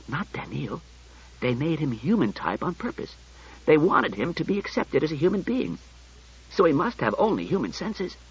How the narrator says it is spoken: He whispered

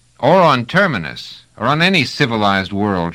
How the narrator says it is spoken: shouted Trevise

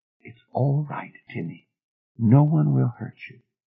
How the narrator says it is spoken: Softly, said

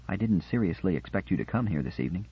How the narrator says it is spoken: said quietly

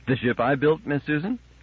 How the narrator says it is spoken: The brain said happily

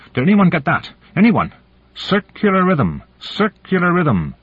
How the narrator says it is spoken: he cried out

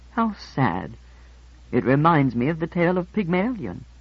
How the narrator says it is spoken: I murmured

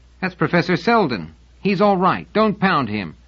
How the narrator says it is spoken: Someone in the crowd shouted

